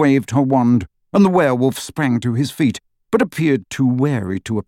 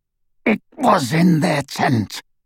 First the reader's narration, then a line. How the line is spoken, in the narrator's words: rasped Greyback